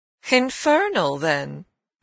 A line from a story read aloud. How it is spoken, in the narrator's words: I almost cheerfully rejoined